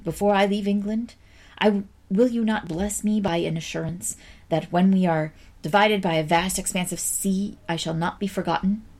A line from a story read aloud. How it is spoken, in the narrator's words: Charlotte sighed